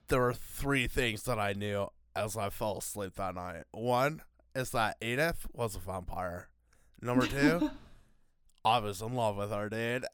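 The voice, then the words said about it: Put-on Hawaiian surfer bro accent. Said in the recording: “a Hawaiian like surfer bro accent”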